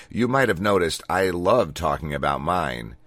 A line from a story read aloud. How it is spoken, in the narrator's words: she said, before dryly adding